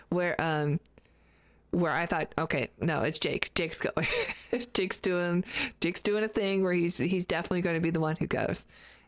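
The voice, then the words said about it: Hoarse, fading voice. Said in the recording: “excuse me, I'm losing my voice”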